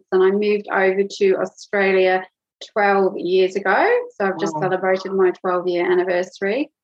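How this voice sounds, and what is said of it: Mixed British-origin accent. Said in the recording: “I'm originally from the UK. You can probably hear I've got a bit of a mixture of accents.”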